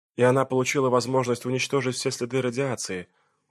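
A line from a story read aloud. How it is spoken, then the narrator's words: Dejected, sinking voice. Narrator (Russian): упавшим голосом продолжила Клэр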